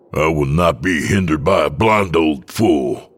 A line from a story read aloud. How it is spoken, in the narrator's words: I growl